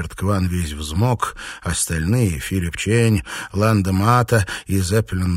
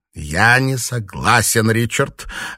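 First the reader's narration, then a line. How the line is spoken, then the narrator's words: Sharp objection. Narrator (Russian): резко возразил Ланда Мата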